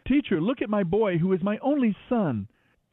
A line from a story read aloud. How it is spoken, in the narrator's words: A man in the crowd called out to him